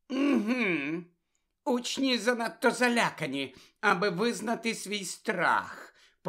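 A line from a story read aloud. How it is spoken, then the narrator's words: Mumbled. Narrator (Ukrainian): пробурмотіла Амбридж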